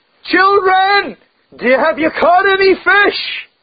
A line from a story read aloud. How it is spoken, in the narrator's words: He shouted